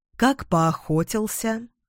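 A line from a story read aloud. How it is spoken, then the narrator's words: Slow, thoughtful. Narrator (Russian): Эдвин задумчиво медленно произнес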